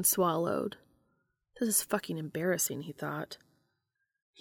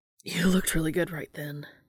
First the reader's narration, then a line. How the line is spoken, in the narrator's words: breathed out